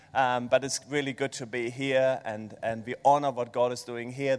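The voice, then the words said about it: German accent. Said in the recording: “this German accent”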